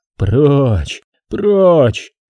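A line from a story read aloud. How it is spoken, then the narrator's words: Moaned. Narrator (Russian): простонал немец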